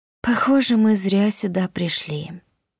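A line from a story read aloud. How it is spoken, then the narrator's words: Tired sigh. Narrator (Russian): устало вздохнула я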